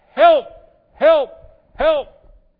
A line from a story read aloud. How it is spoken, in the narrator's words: I've just yelled out